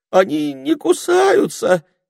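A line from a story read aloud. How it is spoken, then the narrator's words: Trembling voice. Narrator (Russian): дрожащим голосом осведомился горностай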